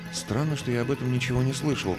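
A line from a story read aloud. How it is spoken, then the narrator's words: Muttered aloud. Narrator (Russian): пробормотал я вслух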